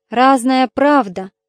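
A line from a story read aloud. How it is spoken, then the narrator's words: Sigh. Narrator (Russian): вздохнула она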